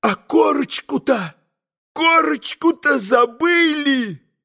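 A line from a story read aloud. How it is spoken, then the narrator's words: Sudden terrified exclamation. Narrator (Russian): вдруг воскликнул он в страшном испуге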